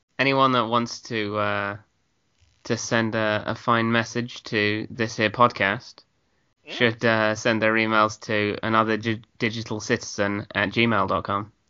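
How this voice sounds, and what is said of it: British accent. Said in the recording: “you almost sounded like Tilly there... It must be the British accent.”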